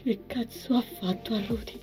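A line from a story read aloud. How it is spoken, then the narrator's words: Whispered. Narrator (Italian): sussurrò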